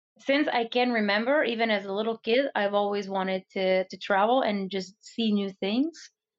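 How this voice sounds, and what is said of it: Hard-to-place mixed accent. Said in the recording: “Where's the accent from? I'm trying to place it. ... I think it's just a mix of everything. ... I was thinking maybe Denmark or something. ... sometimes Denmark, sometimes Ireland. ... they'll think I'm from there sometimes.”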